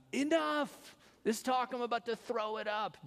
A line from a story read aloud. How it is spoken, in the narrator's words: they would yell